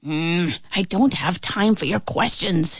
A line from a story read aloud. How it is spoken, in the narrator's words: muttered